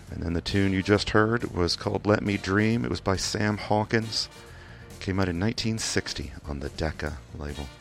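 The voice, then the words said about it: Kentucky accent. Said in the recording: “my accent is mostly Kentucky with just a little bit of British phrasing that comes in sometimes”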